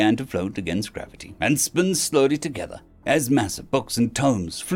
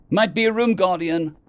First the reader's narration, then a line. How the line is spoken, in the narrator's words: the archer called out